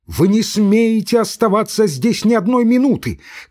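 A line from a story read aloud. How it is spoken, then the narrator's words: Shout. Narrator (Russian): крикнула Зинаида Федоровна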